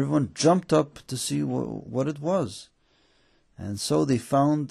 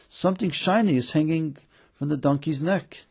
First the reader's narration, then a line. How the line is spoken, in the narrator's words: The student called out excitedly